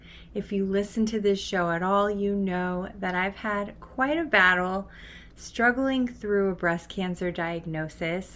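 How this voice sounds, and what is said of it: Weakened, unwell-sounding voice. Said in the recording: “I apologize for my voice... that's not what's taken my voice. I had COVID this past week.”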